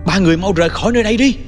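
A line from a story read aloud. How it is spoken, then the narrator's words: Shout. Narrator (Vietnamese): Tôi hét lên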